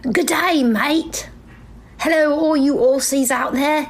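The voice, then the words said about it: Bad put-on Australian accent. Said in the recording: “Is this the worst Australian accent you've ever heard? I don't even know if it's Australian. Am I South African? Am I Kiwi? Am I just bad British?”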